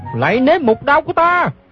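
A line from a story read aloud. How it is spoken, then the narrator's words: Shouting. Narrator (Vietnamese): Gã la lên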